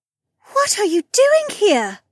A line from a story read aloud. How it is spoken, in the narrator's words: Becca gasped